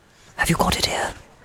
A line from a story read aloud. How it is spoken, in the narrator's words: He asked in a whisper